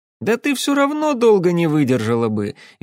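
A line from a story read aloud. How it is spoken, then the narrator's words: Cheerful retort. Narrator (Russian): весело парировал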